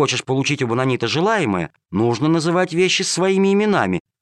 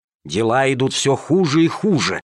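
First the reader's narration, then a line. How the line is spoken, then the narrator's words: Angry hissing, several voices. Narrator (Russian): шипели они, позеленев от злости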